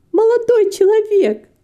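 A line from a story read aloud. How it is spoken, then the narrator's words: Guffawing laughter. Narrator (Russian): расхохоталась Фанни Брюс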